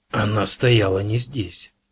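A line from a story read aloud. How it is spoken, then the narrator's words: Hoarse rasp. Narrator (Russian): прохрипел Кразия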